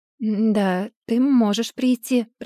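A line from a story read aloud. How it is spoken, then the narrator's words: Muttered. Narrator (Russian): пробормотала я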